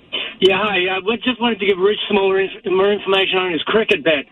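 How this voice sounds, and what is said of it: Australian accent. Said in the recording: “you have an accent, so you obviously know what you're talking about”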